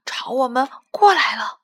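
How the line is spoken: Low voice. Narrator (Chinese): 斑斑低声说

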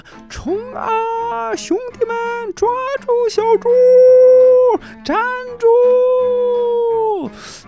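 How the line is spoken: Shouting while chasing. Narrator (Chinese): 一边追，还一边喊着

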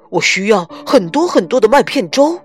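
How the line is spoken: Shouting. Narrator (Chinese): 他喊道

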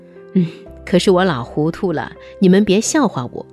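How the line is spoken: Old woman chuckling. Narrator (Chinese): 贾母扑哧一笑，说

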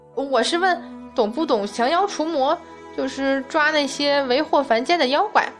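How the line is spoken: Shriek. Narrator (Chinese): 丁香尖叫道

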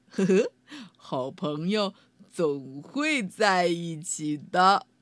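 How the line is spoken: Laughing. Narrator (Chinese): 道格拉斯笑道

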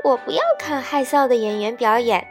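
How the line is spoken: Muffled laughing. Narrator (Chinese): 小喜鹊 捂着嘴笑说

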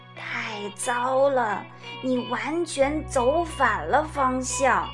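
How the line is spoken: Slow drawl. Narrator (Chinese): 他慢吞吞地说

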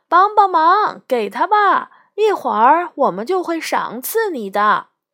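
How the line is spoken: Three voices calling in unison. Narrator (Chinese): 那三个人异口同声地叫道

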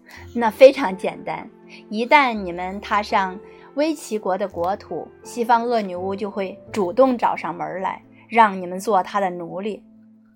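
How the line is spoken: Laughing. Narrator (Chinese): 守卫笑道

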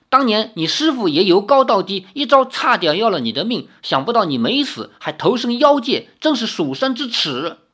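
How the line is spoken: Startled shouting. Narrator (Chinese): 李逍遥也大吃一惊，一面喊道

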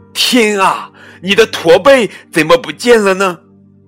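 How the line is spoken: Surprised. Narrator (Chinese): 雷奥惊讶的边说

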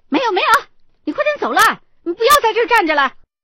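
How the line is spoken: Impatient loud woman. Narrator (Chinese): 女老板就开始不耐烦的大声的说

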